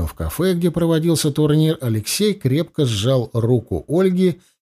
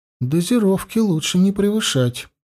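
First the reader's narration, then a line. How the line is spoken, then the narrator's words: Gentle. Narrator (Russian): мягко ответила Ольга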